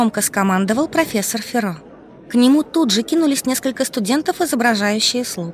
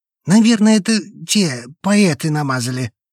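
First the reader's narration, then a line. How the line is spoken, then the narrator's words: Gloomy guess. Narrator (Russian): мрачно предположил Томас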